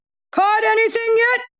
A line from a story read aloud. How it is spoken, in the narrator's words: hollered